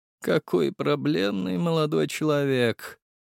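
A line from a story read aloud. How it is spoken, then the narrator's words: Sighing aristocrat. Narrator (Russian): вздохнул аристократ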